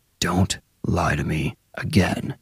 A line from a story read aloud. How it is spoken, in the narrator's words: Straight down Bill's ear canal, Colt hissed